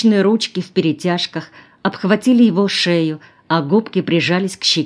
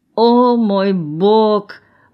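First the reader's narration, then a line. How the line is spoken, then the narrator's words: Frenchwoman moaning. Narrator (Russian): простонала француженка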